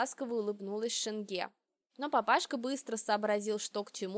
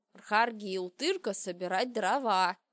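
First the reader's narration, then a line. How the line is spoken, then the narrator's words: Growled. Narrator (Russian): прорычал Шенге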